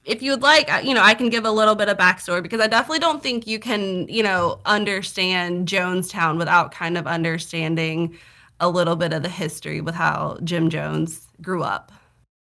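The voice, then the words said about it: Southern US accent. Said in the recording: “I'm from the South, okay? I got Southern accent.”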